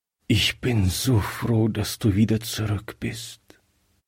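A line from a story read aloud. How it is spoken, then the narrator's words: Weak voice. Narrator (German): sagte er schwach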